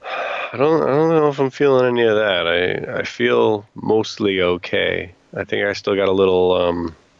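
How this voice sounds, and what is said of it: Slightly congested, off-sounding voice. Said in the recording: “I can I can still hear it a little bit. My my voice is off and I just got the little uh, like sniffly nose”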